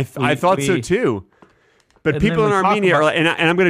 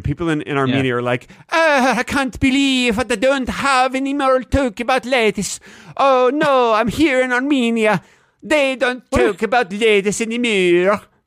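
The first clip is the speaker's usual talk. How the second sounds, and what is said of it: Put-on Armenian accent, unconvincing. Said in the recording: “I'm going to do my Armenian accent right now for you ... What is that accent? ... That is definitely not Armenian.”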